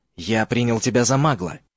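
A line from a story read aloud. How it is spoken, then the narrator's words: Whisper. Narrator (Russian): прошептал Морфин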